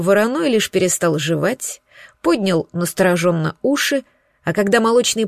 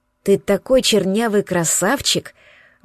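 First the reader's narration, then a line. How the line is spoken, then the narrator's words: Affectionate. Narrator (Russian): Ласково проговорила Сеня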